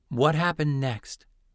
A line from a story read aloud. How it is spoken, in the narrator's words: Dell asked in a soothing tone